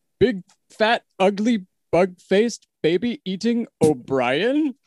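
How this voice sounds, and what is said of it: Impression of a Muppet character. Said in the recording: “going to do an impression of my current number one”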